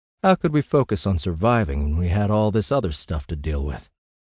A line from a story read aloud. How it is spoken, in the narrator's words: I sighed